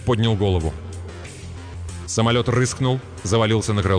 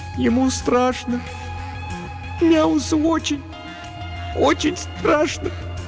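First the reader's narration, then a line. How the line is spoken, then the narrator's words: Trembling, plaintive voice. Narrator (Russian): Дрожащим голосом жалобно выговорила Молли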